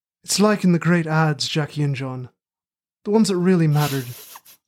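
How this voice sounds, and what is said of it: Working-class rustic Midlands English accent. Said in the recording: “my terrible working-class rustic Midlands accent. ... your rustic Midlands accent”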